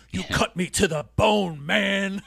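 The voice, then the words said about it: Imitates another person's voice, poorly. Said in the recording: “I thought my impersonations were over. Hogan is another bad one that I do.”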